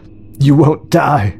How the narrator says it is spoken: sobbed Alex, looking around him in horror

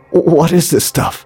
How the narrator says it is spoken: he croaked

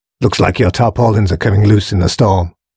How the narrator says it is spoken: grunted the man

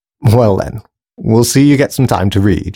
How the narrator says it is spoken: she laughed

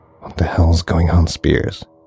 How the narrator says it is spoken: he whispered to himself in disbelief

